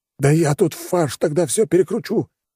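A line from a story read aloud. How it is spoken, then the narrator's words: Exclaimed. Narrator (Russian): воскликнул Людвиг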